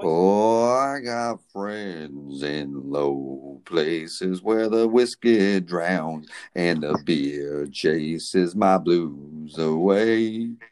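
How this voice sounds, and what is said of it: Sung impression of a country singer. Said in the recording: “sing that chorus to me in your Garth Brooks voice”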